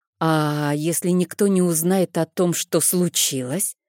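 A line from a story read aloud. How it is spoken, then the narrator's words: Drawling. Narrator (Russian): протянула я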